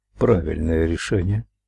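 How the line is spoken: Muttered. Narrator (Russian): пробормотал он

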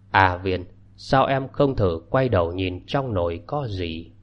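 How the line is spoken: Gentle, pitying, gloomy smile. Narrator (Vietnamese): An Tài … mỉm cười, nụ cười ảm đạm, ánh mắt lộ ra thương hại … nhẹ nhàng hỏi

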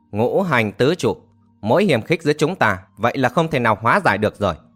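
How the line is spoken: Laughing loudly. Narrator (Vietnamese): cười to

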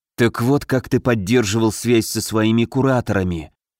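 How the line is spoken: Disbelieving whisper. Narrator (Russian): прошептал Алёша, неверяще

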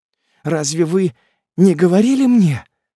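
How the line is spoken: Smiling through tears. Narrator (Russian): продолжала она, улыбаясь сквозь слезы

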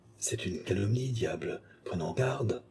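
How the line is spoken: Murmuring. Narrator (French): murmura Richelieu

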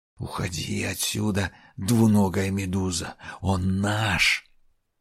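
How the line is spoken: Hissing. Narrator (Russian): Первая зашипела

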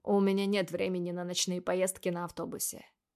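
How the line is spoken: Dry. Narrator (Russian): сухо отвечает

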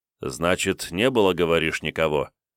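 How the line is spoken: Thoughtful questioning. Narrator (Russian): уточнил Кунигас, задумчиво

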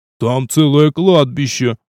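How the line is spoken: Moaning. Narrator (Russian): простонал староста

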